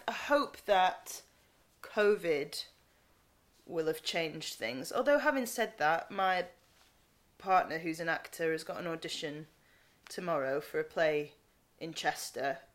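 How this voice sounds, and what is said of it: Northern English accent. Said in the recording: “a non-Northern part ... in my own accent”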